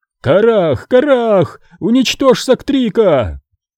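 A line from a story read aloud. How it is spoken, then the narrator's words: Panicked shout. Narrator (Russian): Окончательно впав в панику, Калатин закричал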